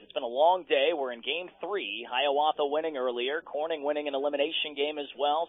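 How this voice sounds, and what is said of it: Slightly hoarse voice. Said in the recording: “my voice sounds a little hoarse,”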